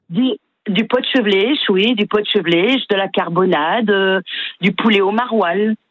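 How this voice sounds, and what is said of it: Mild northern French regional accent. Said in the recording (French): “vous avez un petit accent schnorr qui traîne ... entre Lille et Dunkerque”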